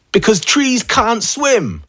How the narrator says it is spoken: he shouted

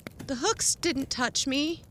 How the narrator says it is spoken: she said shakily

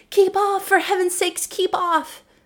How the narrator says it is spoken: the other two cried out

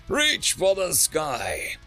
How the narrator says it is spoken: Pathok yelled out

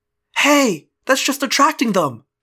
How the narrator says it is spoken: Loren cried

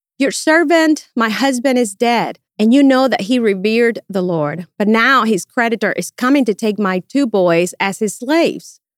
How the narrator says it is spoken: The wife of a man from the company of the prophets cried out to Elijah

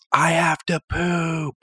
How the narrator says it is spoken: The kid in the back seat yells

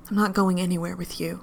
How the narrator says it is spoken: says

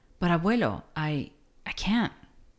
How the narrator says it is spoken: stammered Neto

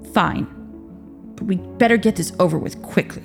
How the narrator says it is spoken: he grumbled

